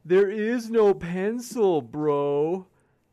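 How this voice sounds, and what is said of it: Imitates another person's voice. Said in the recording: “That's my best impression... That's a good one... At least you do the bro in there. It's not too bad.”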